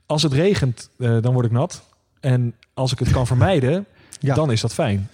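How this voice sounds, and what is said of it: Hague Dutch accent. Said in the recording (Dutch): “in mijn eh, native Haagse accent.”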